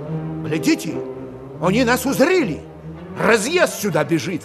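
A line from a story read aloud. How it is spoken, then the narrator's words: Exclamation. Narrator (Russian): воскликнул Стрелядников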